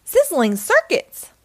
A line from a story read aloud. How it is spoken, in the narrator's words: gasped Bot